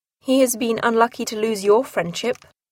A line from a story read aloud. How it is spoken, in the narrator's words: replied Elizabeth